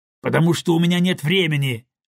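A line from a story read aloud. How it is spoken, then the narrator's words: Irritated. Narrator (Russian): раздраженно ответил он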